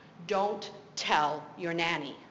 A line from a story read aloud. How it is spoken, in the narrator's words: he very sternly said